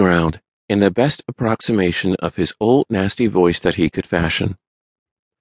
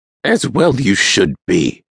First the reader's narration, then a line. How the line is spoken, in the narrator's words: Splooge bellowed